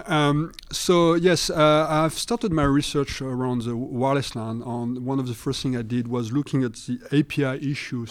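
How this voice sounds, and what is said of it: French accent. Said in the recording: “I apologize for my accent. You know, I'm being French ... But the accent, I do”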